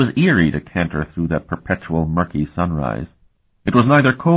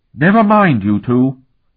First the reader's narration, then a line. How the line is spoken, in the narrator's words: Sophronia said sharply